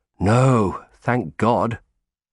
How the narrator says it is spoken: sighed deeply

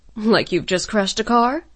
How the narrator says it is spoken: Jaeger chuckled

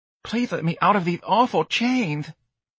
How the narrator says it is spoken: the sailor pleaded

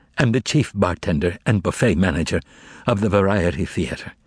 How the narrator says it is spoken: The bartender began bitterly

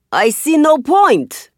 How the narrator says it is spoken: he shouts back

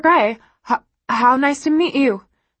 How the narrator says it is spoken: she stutters

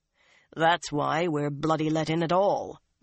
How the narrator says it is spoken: Uno said dryly

